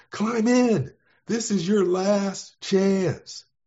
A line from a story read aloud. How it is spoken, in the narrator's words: The pilot screamed to him